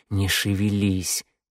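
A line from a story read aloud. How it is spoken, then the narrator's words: Through clenched teeth. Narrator (Russian): процедил Теодор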